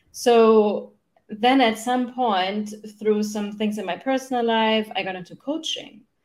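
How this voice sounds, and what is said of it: German accent. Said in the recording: “I grew up in Germany. That's where I'm from, no? in, in case you wonder where my accent is from.”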